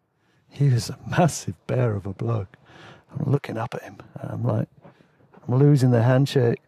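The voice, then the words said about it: English accent. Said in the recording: “he picked up on my accent ... Oh, you're a pommy.”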